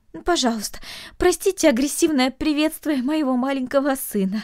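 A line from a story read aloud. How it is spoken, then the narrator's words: Pleading mother. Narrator (Russian): взмолилась мать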